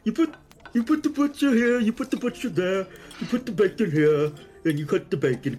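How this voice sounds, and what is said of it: Swedish Chef Muppet impression. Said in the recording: “emulating Chef from the Muppet ... does that voice a lot, and he does a pretty good job”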